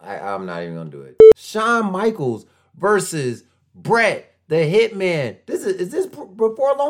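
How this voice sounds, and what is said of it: Usual voice. Nothing is said of it.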